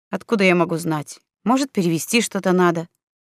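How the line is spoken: Slightly irritated reply. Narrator (Russian): Чуть раздраженно Оскар ответил

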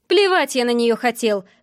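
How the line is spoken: Angry whisper. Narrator (Russian): зло шепчет он

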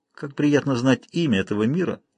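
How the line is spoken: Smiling, then sighing. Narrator (Russian): улыбнулся вновь Лайл и вздохнул

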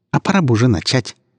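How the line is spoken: Scoffing waitress. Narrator (Russian): фыркнула в ответ официантка

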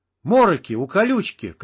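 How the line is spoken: Shout. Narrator (Russian): крикнул Олег

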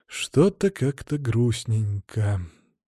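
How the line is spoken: Sigh. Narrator (Russian): вздохнул я

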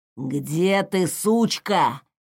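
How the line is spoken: Rough hiss nearby. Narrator (Russian): шипел совсем рядом грубый голос

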